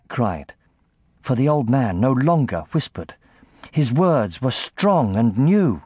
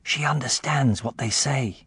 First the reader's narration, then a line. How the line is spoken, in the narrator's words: Jack whispered